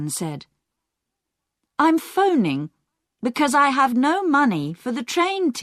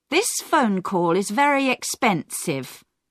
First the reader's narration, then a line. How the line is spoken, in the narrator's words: Diane said coldly